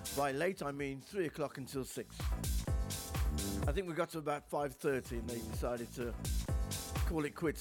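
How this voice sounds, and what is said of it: Hoarse voice. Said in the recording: “my throat sounds hoarse”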